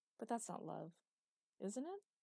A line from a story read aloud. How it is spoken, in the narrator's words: She sighed